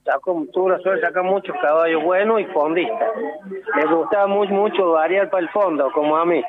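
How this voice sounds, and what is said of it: Córdoba Argentine regional accent. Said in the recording (Spanish): “Cordobés, por la tonada, ¿no? Sí. Clarísimo.”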